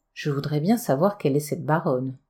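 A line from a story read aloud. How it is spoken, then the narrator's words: Everyone murmuring, slightly troubled. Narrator (French): chacun murmura, un peu troublé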